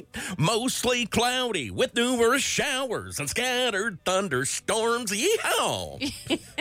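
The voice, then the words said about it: Exaggerated country twang, sung. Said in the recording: “You sing the weather ... Sing ... with a twang ... Wow, that's so bad.”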